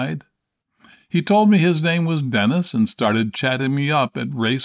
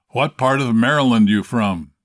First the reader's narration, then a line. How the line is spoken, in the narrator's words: asked, in a booming voice